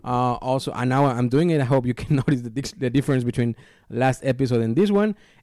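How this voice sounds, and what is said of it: Accented English, strong P and B sounds. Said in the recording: “the P's and the B's and all that stuff, especially with my accent, doesn't sound, you know, too strong”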